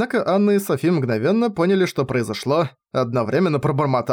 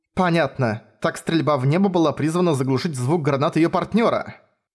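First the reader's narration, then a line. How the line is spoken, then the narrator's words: Plain. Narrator (Russian): сказала Софи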